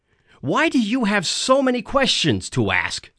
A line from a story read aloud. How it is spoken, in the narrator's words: I yelled